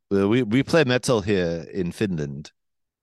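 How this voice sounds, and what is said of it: Imitated Finnish accent, Quebec-tinged. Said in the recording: “That's my Quebec accent trying to imitate Finland accent. ... Finland by way of Quebec.”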